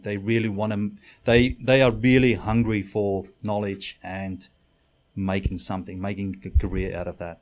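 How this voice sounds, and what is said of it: Non-native English accent. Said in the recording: “from your accent and your surname, you're not a native?”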